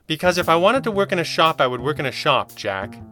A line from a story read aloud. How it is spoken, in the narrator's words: she snapped